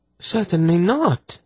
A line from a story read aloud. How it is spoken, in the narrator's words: she replied in a shocked voice